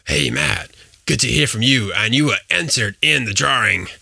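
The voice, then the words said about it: Imitates another person's voice. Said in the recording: “That's my Mike Gutterman impression. ... He's got a great voice.”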